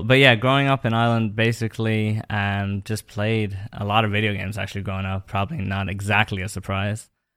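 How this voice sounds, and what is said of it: Irish accent mixed with English, American twang. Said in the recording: “they can tell you're from Ireland ... my accent is completely weird ... born in England and then grew up in Ireland ... that kind of mix of an accent ... American twang in my accent as well ... three accents put together”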